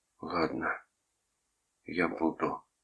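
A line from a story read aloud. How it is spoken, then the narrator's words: Barely audible. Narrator (Russian): сказал Синклер так тихо, что Томас едва его услышал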